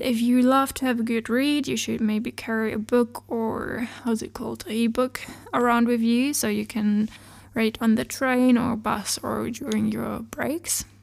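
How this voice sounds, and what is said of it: Slightly hoarse voice from a cold. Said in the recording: “sorry for my voice. I got a little cold ... my voice is still a bit crooked, like a bit weird ... if I have a really, like, crooked voice ... it's because I got a cold”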